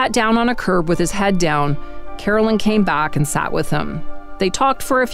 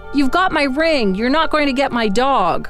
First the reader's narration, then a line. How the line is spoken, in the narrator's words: John yelled